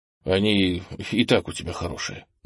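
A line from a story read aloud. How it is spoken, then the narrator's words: Muttered. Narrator (Russian): буркнул Кенни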